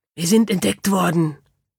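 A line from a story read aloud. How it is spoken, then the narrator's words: Hissing. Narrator (German): zischte es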